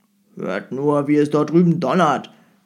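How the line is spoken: Growled. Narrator (German): knurrte der Jemschik

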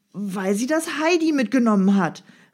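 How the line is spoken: Exclaimed. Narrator (German): rief Peter aus

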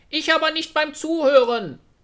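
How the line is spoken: Robin, cheeky laughing. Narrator (German): sagte das Rotkehlchen und lachte frech

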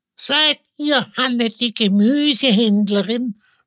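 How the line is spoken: Old woman's unpleasant croak. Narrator (German): fragte das alte Weib mit unangenehmer, krächzender Stimme

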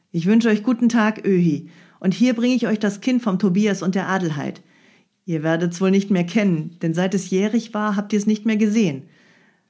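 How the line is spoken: Called out, approaching. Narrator (German): rief hinzutretend

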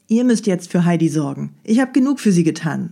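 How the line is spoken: Plain. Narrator (German): sagte Dete

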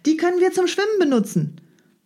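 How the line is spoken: Male call. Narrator (German): rief er

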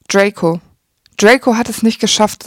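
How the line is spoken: Forced calm. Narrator (German): sagte Snape, bemüht ruhig

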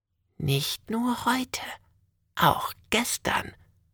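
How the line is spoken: Whisper. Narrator (German): wispert die Frau

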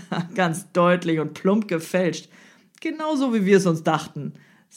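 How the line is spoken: Loud and clear. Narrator (German): sagte laut und vernehmlich

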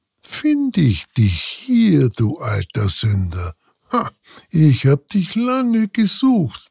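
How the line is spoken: Murmur. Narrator (German): murmelte

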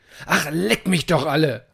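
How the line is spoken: Roar. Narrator (German): brüllte er in ihre Richtung

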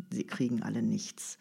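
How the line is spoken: Murmuring. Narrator (German): murmelte er

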